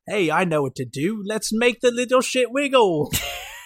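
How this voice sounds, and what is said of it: Bad put-on accent. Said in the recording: “That was a horrible accent”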